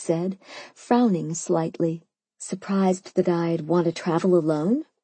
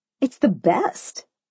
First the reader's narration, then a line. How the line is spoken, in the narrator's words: I cried